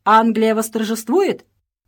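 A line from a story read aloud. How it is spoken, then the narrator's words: Shrill exclamation. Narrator (Russian): воскликнула пронзительным голосом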